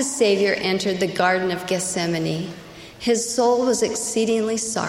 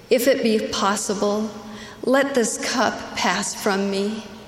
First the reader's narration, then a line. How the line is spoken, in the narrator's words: He pleaded